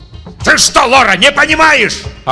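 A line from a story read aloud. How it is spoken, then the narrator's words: Yelling. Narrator (Russian): орал Татлин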